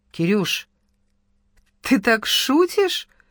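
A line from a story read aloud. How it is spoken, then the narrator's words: Uncertain giggle. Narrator (Russian): неуверенно хихикнула Ира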